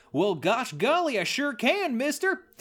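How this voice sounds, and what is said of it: Exaggerated Southern American accent. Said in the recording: “do an American accent if it's super Southern”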